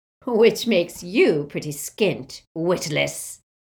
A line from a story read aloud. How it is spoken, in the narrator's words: said a cackling voice